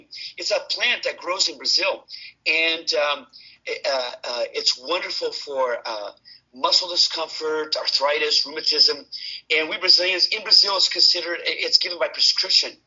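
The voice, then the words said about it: Brazilian accent. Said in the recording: “notice I started speaking about Brazilian products. I suddenly get my accent back.”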